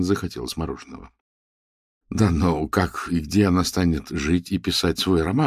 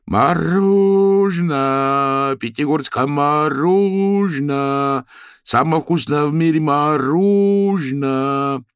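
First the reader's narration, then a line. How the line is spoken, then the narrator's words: Vendor's loud singsong call. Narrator (Russian): Разносчик, перекрикивая песню про розы, повторял нараспев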